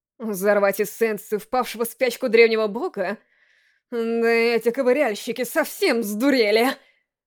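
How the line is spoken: Moaning. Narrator (Russian): Простонала она

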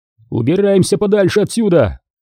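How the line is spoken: Shouted. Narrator (Russian): крикнул Редфилд Джошу

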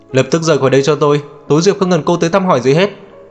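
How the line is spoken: Angry. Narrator (Vietnamese): Kiều Đông Nham giận dữ

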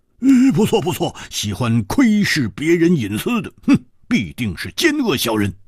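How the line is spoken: Loud. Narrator (Chinese): 蝴蝶花大声说

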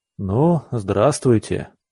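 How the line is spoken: Weary greeting. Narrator (Russian): устало поприветствовал я

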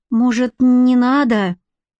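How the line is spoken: Apprehensive plaintive question. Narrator (Russian): Сглотнув слюну от нехорошего предчувствия, Федька на всякий случай жалобно спросил

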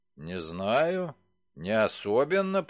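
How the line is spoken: Mumbling. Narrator (Russian): промямлил Уолтерс

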